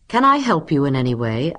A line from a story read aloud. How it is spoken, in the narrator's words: asked Stuart in a friendly voice